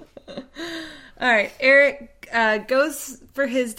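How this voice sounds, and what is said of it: Usual voice. Nothing is said of it.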